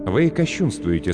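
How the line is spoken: Calm reply. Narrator (Russian): спокойно ответствовал Брайан

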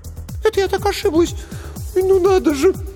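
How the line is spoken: Trembling, near sobbing. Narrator (Russian): Трепетный эльф едва не всхлипнул

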